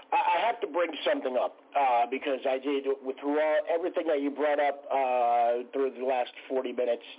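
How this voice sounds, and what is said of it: Unwell, under-the-weather voice. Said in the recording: “Excuse my voice. I'm a little under the weather.”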